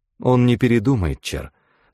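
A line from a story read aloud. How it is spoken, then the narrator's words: Sad. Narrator (Russian): сказала незнакомка, грустно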